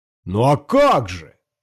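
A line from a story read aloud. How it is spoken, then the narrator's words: Devil shouting. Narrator (Russian): закричал черт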